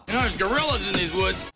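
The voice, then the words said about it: Imitates another person's voice. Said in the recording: “There we go. Kurt Russell.”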